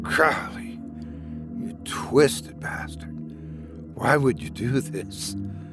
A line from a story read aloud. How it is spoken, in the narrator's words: Oliver whispered in disbelief